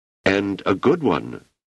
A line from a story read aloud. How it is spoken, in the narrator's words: said Lin